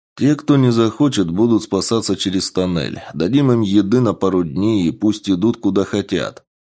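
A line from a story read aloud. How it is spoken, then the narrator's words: Plain. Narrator (Russian): сказал Сергей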